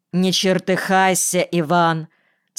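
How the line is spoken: Stern rebuke. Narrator (Russian): строго одернула мужа Серафима Георгиевна

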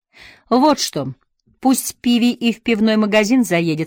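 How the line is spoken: Plain. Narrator (Russian): сказала мисс Оустлер

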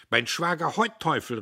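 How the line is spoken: Calling out. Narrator (German): rief er

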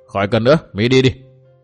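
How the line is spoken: Cold. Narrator (Vietnamese): Bạch Phát thái lão bà lạnh lùng nói

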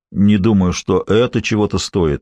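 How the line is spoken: Gloomy, drenched man. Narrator (Russian): мрачно сказал промокший Питер

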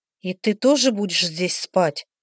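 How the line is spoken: Frightened question. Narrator (Russian): испуганно спросила

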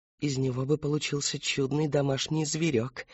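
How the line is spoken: Child's whisper. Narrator (Russian): прошептала маленькая девочка

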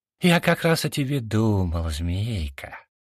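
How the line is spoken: Honeyed voice. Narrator (Russian): произношу елейным голосом

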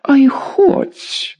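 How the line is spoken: Shrill squeal. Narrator (Russian): взвизгнула краснощекая

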